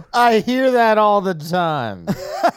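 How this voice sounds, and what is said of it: Drunk uncle voice. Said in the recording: “how you sounded like my drunk uncle ... I have very strong drunk uncle energy”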